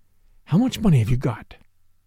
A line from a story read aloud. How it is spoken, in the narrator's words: whispered